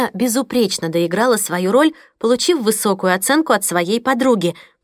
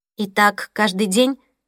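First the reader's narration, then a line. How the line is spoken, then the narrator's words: Plain. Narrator (Russian): спросила Мия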